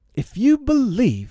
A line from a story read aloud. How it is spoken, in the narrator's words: he shouted to them